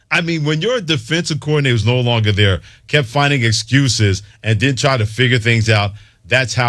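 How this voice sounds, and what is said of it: Usual voice. Nothing is said of it.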